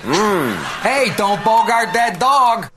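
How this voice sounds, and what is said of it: Put-on Chicago accent. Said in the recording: “the accent is absolutely perfect... Potillo's. I didn't know we said it that way.”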